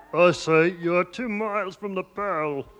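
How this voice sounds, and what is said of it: Comic voice imitating an envelope. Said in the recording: “A man doing an impression of an envelope.”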